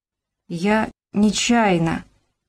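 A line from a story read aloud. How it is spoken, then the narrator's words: Timid barely audible mumble. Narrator (Russian): еле внятно промямлил робко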